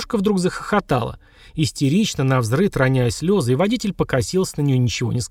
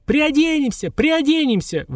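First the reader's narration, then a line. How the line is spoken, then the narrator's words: Shouting in unison. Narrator (Russian): в один голос закричали Маша и Таня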